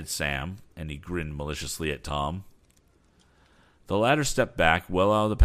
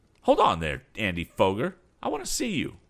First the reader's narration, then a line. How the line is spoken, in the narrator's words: called out